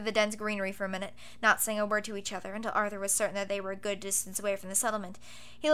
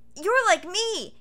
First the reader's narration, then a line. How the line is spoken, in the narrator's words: he exclaimed